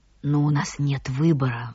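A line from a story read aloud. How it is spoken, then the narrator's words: Sighing lady. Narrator (Russian): вздохнула дама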